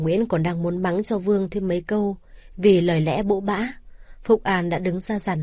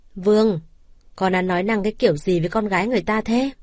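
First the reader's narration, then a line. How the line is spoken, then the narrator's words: Stern scolding mother. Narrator (Vietnamese): Bà Nguyễn nghe ra lời lẽ không hay từ thằng con mất nét nhà mình, nghiêm giọng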